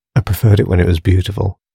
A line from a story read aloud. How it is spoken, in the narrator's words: sighed Nix